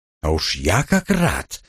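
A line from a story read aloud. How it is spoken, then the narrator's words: Hissing. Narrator (Russian): прошипел я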